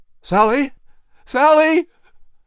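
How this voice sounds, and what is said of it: Panicked crying out. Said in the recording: “Patrick cried in a panicked voice, fearing he was losing her.”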